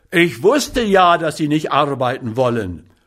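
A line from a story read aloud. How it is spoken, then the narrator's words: Roaring. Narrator (German): brüllte er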